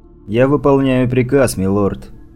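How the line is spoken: Even voice, dog. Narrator (Russian): ровным голосом сказал пес

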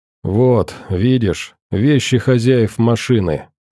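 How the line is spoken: Gloomy. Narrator (Russian): сказал мрачно Александр

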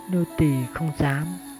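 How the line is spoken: Soft, holding back tears. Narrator (Vietnamese): Lòng nàng đã rối bời nhưng vẫn cố gắng không rơi nước mắt, chỉ khẽ đáp

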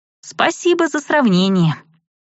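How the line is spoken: Grumbling. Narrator (Russian): буркнула я

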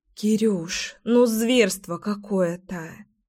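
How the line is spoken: Sighing. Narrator (Russian): вздохнула Леська

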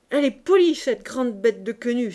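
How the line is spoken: Relieved happy exclamation. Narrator (French): s'écria-t-elle, heureuse de se soulager

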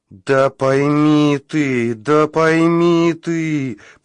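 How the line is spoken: Groaning voice. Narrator (Russian): простонал голос

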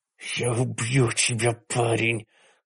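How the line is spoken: Hiss. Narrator (Russian): прошипел Каттер

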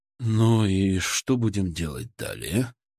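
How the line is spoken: Muffled, tired question. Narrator (Russian): спросил Киселев, и его голос прозвучал глухо и устало

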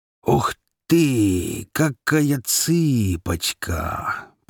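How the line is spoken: Leering drawl. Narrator (Russian): протянул похожий на обезьяну уродливый негр-горбун под 300 фунтов весом

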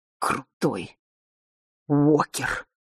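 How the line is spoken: Breathless near-silent wheeze. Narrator (Russian): просипела почти уже беззвучно, задыхаясь

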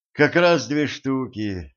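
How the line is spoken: Sighing. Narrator (Russian): вздохнула Женька

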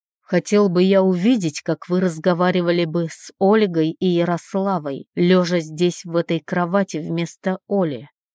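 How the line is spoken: Rude. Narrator (Russian): грубо произносит Иван

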